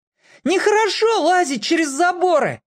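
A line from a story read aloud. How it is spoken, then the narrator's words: Yell. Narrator (Russian): заорал в ответ Петька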